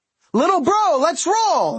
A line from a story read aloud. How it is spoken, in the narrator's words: Mickey hollered